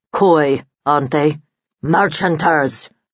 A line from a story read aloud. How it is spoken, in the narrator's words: growled Vladi